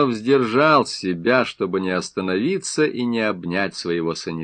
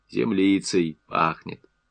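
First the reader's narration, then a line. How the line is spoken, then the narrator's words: Relished repeat after deep sigh. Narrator (Russian): он с наслаждением глубоко вздохнул и повторил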